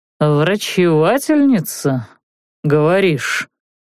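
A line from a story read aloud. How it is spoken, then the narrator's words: Thoughtful drawl. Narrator (Russian): Задумчиво протянул Бенгт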